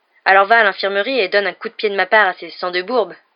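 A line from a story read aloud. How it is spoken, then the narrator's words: Sneering. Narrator (French): ricana Malfoy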